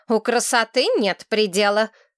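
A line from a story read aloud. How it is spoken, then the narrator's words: Stern. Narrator (Russian): строго сказала Сарна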